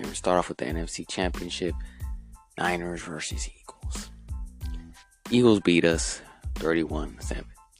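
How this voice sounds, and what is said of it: Sore, strained voice. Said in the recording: “My voice is not the best right now. It's a little bit sore”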